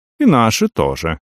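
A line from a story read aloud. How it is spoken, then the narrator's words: Calm, phlegmatic. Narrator (Russian): спокойно кивнул флегматичный, как всегда, Рик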